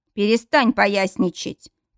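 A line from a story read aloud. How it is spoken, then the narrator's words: Man barking again. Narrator (Russian): повторно рявкнул мужчина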